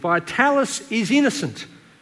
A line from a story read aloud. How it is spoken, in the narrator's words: Cut to the core, the young man ran out to the street yelling